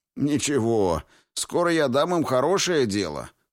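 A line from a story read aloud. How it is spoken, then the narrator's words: Short laugh. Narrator (Russian): хохотнул Двейн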